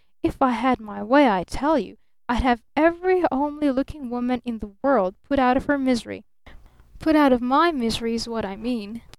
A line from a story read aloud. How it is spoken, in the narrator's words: he threatened with hissing emphasis